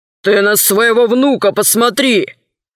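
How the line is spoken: Snapping retort. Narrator (Russian): огрызнулся городской голова

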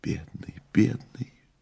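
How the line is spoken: Soundless whisper. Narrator (Russian): беззвучно зашептала Маргарита

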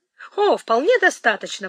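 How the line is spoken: Exclaimed. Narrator (Russian): воскликнул мистер Йетс

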